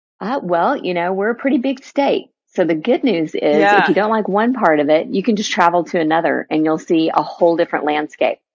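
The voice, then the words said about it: Texan accent. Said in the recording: “I may say y'all a few times. It may slip in. ... I'm obsessed with your accent already. ... a born, bred, and raised pure Texan”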